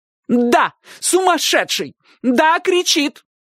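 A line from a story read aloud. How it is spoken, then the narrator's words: Shouted. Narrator (Russian): крикнула тетушка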